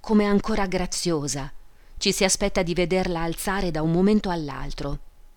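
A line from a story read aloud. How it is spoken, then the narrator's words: Sighing woman's voice. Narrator (Italian): diceva sospirando l'albergatrice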